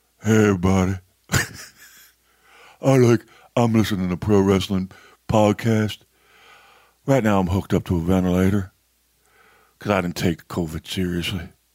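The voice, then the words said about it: Mocking imitation of a mouth-breather. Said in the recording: “you mouth breather ... can I do an imitation of that person?”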